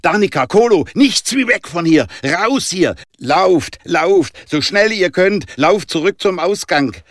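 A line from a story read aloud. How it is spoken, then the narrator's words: Shocked loud scream. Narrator (German): Jonah war geschockt, erkannte die Gefahr und schrie laut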